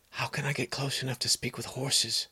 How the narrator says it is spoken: I whispered

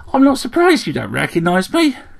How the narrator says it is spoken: chirped the sparrow

